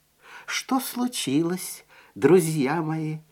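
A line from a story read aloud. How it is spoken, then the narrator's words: Gentle question. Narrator (Russian): ласково спросил он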